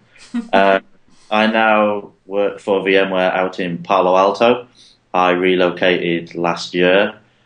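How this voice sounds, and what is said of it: Northeast English Middlesbrough accent. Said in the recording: “Middlesbrough in the northeast of England, hence my tragic accent.”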